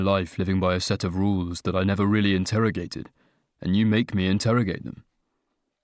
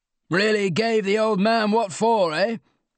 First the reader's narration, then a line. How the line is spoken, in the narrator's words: he yell said from the steps